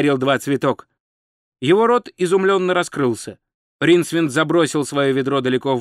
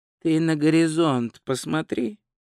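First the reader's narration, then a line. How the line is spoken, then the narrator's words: Flat, toneless. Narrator (Russian): бесцветным голосом посоветовал Ринсвинд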